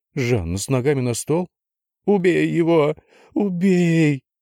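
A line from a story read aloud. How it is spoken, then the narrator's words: Sobbing wife. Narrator (Russian): рыдала жена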